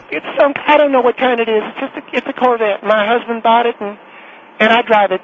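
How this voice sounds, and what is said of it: Southern American accent. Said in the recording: “how come all of us have southern accents?”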